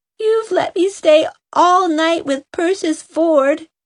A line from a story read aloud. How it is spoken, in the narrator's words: she sobbed